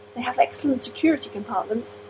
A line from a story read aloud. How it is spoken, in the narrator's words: the clerk volunteered hesitantly